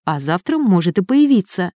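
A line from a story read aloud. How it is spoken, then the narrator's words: Calm. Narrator (Russian): спокойно ответил Элик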